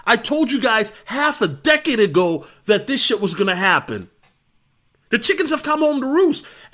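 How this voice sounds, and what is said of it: Upset, frustrated speaking voice. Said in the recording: “I sound so upset”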